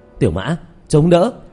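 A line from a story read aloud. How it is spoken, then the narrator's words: Shouted loudly. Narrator (Vietnamese): Diệp Thiếu Dương hét lớn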